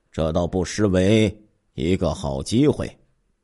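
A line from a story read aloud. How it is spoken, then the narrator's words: Flat, indifferent. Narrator (Chinese): 石必杀淡淡的说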